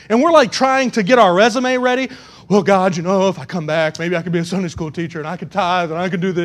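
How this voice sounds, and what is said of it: Usual voice. Nothing is said of it.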